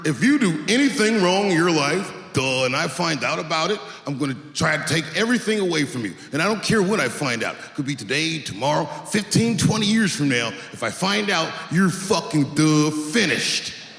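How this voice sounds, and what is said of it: Impression of an unnamed person. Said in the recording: “doing an impression ... let me get into character”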